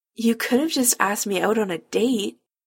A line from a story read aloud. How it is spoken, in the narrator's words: Chris says weakly